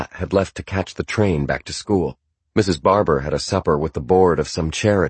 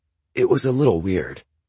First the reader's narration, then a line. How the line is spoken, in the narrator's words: I said